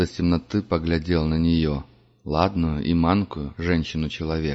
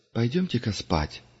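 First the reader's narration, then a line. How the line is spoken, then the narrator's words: Quiet voice. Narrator (Russian): сказала Инси негромко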